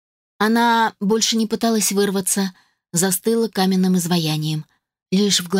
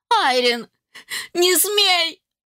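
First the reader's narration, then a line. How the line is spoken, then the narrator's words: Shout. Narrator (Russian): закричала матушка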